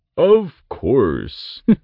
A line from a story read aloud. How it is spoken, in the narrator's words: the Ent laughed